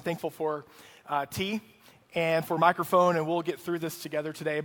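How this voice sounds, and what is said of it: Rough, strained voice. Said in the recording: “I want to apologize up front for my voice. Uh, I normally don't sound this gross. Uh, I'm going to sound a little bit gross this morning ... maybe I screamed too much at my kid's eight year old baseball game yesterday”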